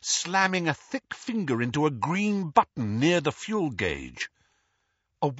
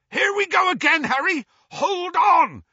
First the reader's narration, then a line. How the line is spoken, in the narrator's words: yelled Hagrid